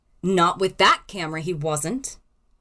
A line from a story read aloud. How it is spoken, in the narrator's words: snapped